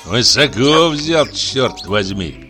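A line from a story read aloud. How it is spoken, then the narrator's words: Grumbling. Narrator (Russian): проворчал он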